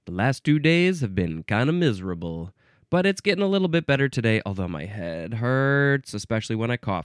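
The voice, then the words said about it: Deep voice, sounds sick. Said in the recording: “I'm using my deep, sexy voice today because I'm getting over a cold.”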